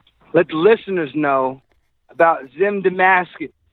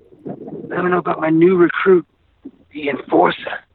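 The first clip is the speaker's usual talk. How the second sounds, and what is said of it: Whispering. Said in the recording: “I'm whispering.”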